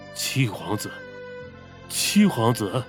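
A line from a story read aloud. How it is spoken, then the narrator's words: Dazed mumbling. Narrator (Chinese): 二狗整个人像是一下子重新傻掉了，他口中喃喃着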